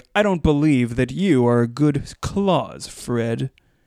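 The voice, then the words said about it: Kevin Spacey impression. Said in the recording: “your Kevin Spacey impression... you spent so many years honing your Kevin Spacey impression”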